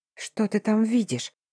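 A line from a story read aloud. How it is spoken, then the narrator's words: Whisper. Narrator (Russian): прошептала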